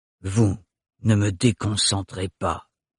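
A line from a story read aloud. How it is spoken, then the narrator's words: Grumbling. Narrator (French): grommela Thorne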